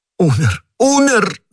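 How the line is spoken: Shouting. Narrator (Russian): закричал Патрик

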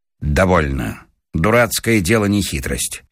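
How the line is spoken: Stern, suddenly angry. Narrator (Russian): Павел Сучков вдруг озлился и сказал строго

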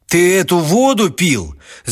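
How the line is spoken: Shout. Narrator (Russian): закричал Степан Михайлович

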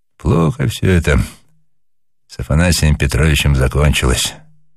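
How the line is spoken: Sudden remark, sighing. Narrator (Russian): вдруг сказал капитан-наставник и вздохнул

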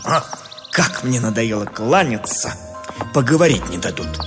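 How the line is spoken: Irritated grumble. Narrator (Russian): Вынужденный беспрестанно отвечать на приветствие, поэт раздраженно буркнул

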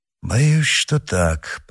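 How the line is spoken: Very quiet. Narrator (Russian): произнес Д'Артаньян совсем тихо

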